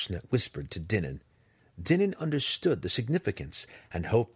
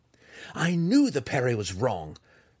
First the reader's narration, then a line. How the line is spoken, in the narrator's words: cried, already savoring the next time he would get the opportunity to foil the double thrust low